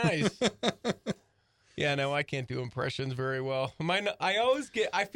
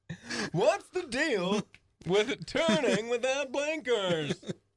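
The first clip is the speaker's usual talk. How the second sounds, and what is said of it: Poor Jerry Seinfeld impression. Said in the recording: “say things back to yourself as Jerry Seinfeld ... that's a terrible impression.”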